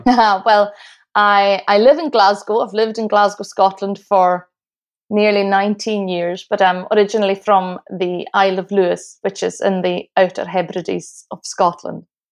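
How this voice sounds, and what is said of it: Lovely Scottish accent. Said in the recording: “Where is that lovely accent from?”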